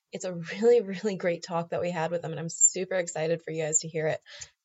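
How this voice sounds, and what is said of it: Sick voice with vocal fry. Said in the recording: “all the vocal fry. I've been sick all week ... I know that I'm hard to listen to”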